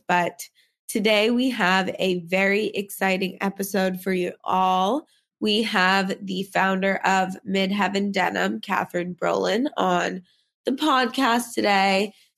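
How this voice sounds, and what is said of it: Congested voice from a cold. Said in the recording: “I'm sure you can hear in my voice, I am going through a little bit of a cold”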